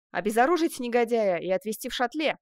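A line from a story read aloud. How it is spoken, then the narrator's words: Barked command. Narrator (Russian): начальник патруля гаркнул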